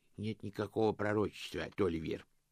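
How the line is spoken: Sad, respected elder. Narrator (Russian): сказал достопочтенный мастер, печально качая головой

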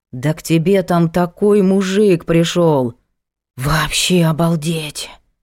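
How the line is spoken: Envious breathy exclamation. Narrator (Russian): Завистливо выдохнула коллега

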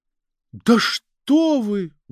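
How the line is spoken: Exclaimed. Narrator (Russian): воскликнул следователь

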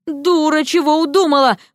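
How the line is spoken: Silent inner scream. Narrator (Russian): мысленно завопил он

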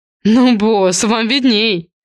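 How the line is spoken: Smirking. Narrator (Russian): хмыкнул Марк

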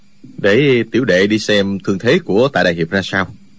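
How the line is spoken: Lowered, quiet voice. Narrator (Vietnamese): Dư Thanh Tuyền vẫn hạ giọng nói nhỏ

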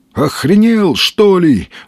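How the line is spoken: Exclaiming. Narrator (Russian): воскликнул он

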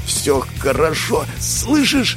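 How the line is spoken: Pained, through clenched teeth. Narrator (Russian): Из-за боли он говорил сквозь зубы

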